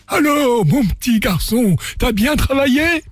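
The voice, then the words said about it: Cartoon bear cub voice. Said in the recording (French): “Très belle imitation du garçon. On dirait l'ourson.”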